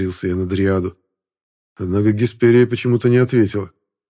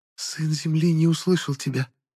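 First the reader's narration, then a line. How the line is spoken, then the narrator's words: Faint whisper. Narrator (Russian): едва разобрал я ее шепот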